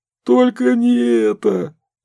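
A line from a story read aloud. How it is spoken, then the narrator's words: Sobbing. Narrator (Russian): зарыдал Олух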